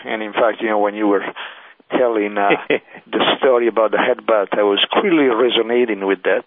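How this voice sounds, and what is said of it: Italian accent. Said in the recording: “I'm an Italian, as you can hear from my accent.”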